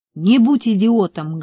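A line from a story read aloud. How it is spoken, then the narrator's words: Barked shout. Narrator (Russian): гаркнул я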